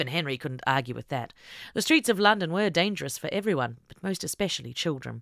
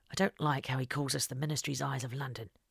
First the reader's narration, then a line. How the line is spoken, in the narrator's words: Henry muttered under his breath